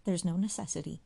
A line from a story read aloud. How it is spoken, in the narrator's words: she quickly returned